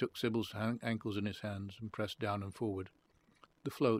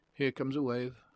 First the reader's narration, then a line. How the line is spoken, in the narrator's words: Sybil said nervously